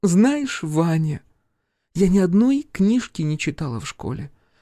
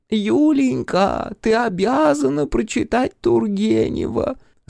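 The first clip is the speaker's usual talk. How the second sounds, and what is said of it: Mimicking an elderly woman's voice. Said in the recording (Russian): “пытаясь пародировать голос пожилой женщины”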